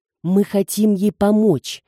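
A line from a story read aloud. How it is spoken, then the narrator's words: Exclaiming. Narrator (Russian): воскликнул Виктор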